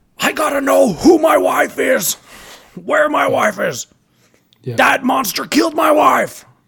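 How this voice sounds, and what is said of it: Growling imitation of another person's voice. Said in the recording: “he did his, like, growl ... my Bryan Cranston impression”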